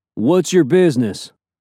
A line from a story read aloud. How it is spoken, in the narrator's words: asked Leather Jacket in a mild southern accent